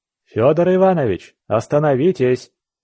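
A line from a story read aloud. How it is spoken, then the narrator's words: Shout. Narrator (Russian): крикнул я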